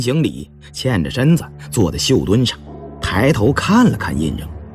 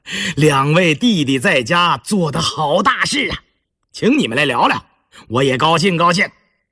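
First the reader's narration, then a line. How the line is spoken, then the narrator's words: Hearty chuckling. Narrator (Chinese): 一见面就呵呵地笑着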